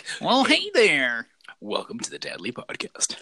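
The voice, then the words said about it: Sexy radio announcer voice. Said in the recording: “I go to my radio sexy voice”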